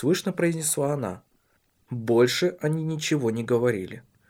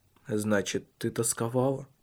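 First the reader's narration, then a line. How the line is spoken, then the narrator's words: Quiet question. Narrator (Russian): тихо спросил он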